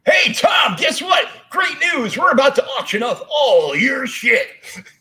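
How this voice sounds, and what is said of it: Strip club announcer style voice. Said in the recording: “my strip club voice”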